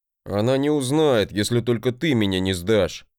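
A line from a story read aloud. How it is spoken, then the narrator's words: Grumbling. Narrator (Russian): проворчал брат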